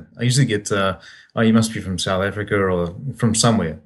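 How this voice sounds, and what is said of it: Softened New Zealand accent. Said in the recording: “you've got that New Zealand accent happening still ... I still can't lose the accent. I must admit though, it does get softened.”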